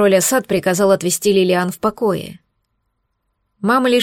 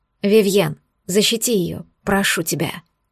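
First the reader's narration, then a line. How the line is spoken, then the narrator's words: Strangled whisper. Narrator (Russian): Бросила сдавленным шепотом, обращаясь к меньшему брату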